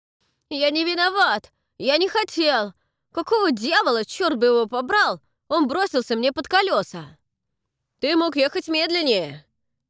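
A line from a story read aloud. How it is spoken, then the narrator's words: Shouted. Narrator (Russian): кричал кто-то другой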